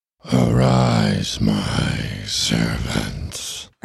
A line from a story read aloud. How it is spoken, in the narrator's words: Ernie said in that strange and painful voice